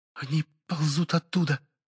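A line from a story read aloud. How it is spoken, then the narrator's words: Whisper. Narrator (Russian): прошептала собеседница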